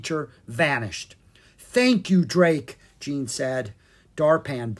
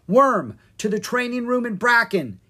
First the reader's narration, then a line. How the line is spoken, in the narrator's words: he yelled